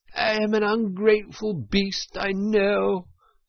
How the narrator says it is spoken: sobbed Toad, shedding bitter tears

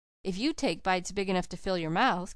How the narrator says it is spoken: giggled Felicity, with cruelty and without provocation

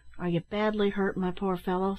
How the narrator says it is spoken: said Ned, anxiously

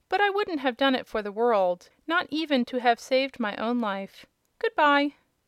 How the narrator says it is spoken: said Rob, laughing

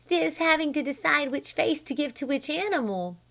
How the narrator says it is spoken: she giggled

